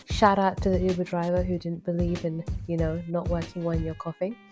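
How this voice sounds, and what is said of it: Voice affected by a cold. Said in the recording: “I'm sure you can tell by my voice that I'm battling a slight cold”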